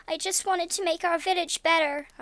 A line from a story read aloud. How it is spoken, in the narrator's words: I sobbed, the tears staining my cheeks